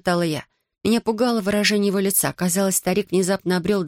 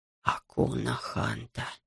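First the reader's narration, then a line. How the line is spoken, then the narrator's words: Whispered. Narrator (Russian): прошептал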